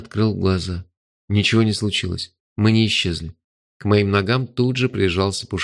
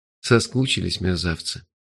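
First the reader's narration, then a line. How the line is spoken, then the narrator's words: Tender. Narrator (Russian): нежно сказал я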